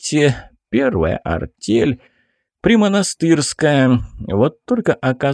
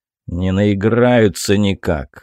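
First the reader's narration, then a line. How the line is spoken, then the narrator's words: Displeased grumble. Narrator (Russian): с неудовольствием проворчал Еремей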